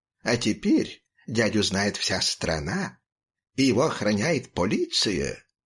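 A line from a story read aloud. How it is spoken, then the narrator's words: Purring voice, chewing. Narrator (Russian): Мурлыкающим голосом продолжал кошачий зуб, пережевывая табак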